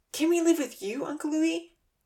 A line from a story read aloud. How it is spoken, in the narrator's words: Santa pleaded